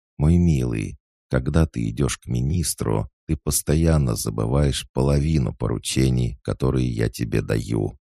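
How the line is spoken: Calm objection. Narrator (Russian): Она спокойно возразила

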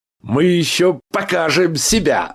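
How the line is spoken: Loud laughter. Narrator (Russian): захохотал Михаил Аверьяныч

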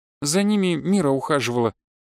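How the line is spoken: Sighing. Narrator (Russian): вздохнула Тайра

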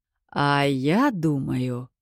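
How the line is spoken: Slow. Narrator (Russian): медленно произнес отец

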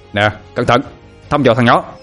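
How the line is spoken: Loud yell. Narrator (Vietnamese): Tâm hét lớn

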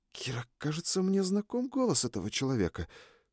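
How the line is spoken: Whispered reply. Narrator (Russian): шепнула Триш в ответ

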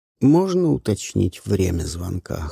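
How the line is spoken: Cold. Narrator (Russian): холодно заметила Каролина

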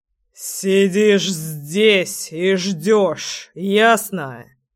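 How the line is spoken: Growled. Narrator (Russian): Прорычал крестный

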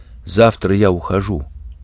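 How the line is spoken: Quiet. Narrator (Russian): Ящик сказал негромко

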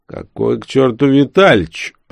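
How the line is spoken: Booming mocking laughter. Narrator (Russian): расхохотался тот прямо как Мефистофель из оперы

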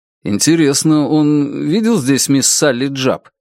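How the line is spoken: Asked uncertainly. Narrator (Russian): спросил неуверенно Стивен

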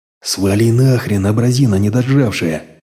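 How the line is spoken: Father through gritted teeth. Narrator (Russian): Сквозь зубы процедил батя

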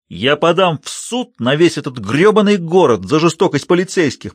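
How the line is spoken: Shrill yell. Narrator (Russian): провопил Сэм

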